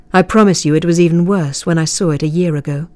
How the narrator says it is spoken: he said

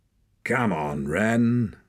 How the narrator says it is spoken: snarled Hord

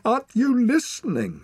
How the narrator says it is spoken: She shouted

